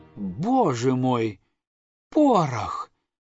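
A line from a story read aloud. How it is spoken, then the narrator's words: Breathless excited exclamation. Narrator (Russian): воскликнула Мими, задыхающимся от волнения голосом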